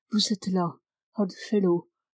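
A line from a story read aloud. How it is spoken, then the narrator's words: Murmured. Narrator (French): murmure-t-il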